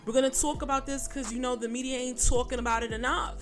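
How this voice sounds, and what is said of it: Put-on New York accent. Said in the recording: “in my New York accent ... Not T-A-L-K, but T-W-A-L-K”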